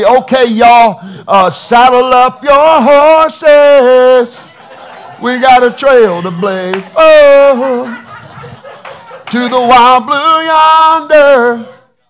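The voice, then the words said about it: Put-on southern accent. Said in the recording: “talks with a southern accent”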